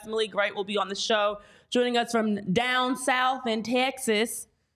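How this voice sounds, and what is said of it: Put-on Texas accent. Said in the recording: “That's just what I feel like a Texas accent sounds like.”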